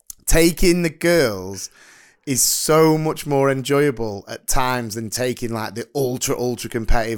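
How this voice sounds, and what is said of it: Hoarse, slightly slurred-sounding voice. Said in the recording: “this guy it sounds like he's like slurring his words ... That's why I'm feeling hoarse because ... oh, you've been shouting”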